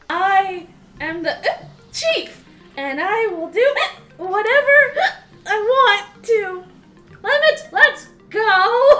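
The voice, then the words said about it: Sounds drunk. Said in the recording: “Why do you sound drunk”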